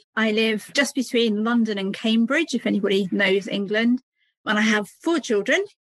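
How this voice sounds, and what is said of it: British English accent. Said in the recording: “You probably hear from my accent, I'm from the UK.”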